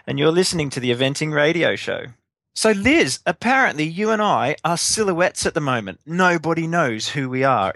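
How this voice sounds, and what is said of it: Australian accent. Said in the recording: “you might tell from my accent, originally Australian”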